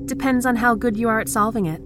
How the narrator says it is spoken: she shouted

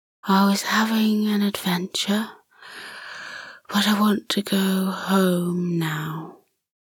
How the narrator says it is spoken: The bat said sleepily

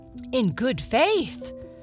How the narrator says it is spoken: cried the mother

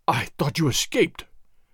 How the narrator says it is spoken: Don Carlos gasped again, seemingly unable to think of anything else

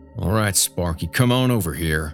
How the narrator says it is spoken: Dale said between clenched teeth, just audible over the growls

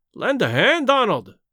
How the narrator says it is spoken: he cried

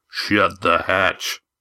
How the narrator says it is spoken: growled a voice below them

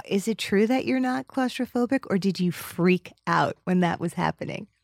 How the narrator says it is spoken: I breathed

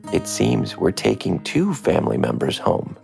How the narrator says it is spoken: she said

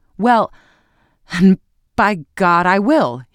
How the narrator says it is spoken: he exclaimed

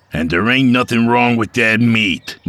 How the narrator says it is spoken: Mike snapped

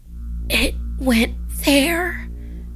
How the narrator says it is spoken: she whispered

